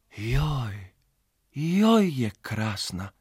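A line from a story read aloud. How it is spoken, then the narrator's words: Sighing. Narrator (Slovenian): je Jasna Jazbec zavzdihnila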